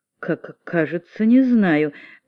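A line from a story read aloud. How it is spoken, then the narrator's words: Heavy stuttering. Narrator (Russian): заикаясь сильнее обычного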